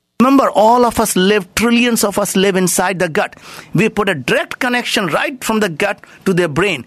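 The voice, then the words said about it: Indian accent. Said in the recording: “Very Indian guys, you'll hear from his accent”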